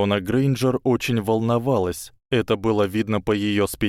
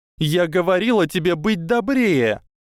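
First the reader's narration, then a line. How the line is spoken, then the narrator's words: Shouted. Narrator (Russian): крикнула Гермиона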